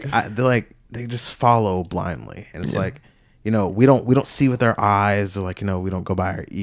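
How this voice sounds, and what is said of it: Usual voice. Nothing is said of it.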